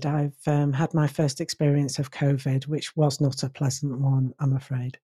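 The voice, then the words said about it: Slightly hoarse voice. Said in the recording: “still a little bit of a sore throat and things ... still a little bit hoarse”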